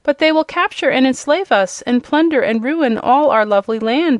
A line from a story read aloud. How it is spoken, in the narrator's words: exclaimed the Wizard, greatly disturbed by this statement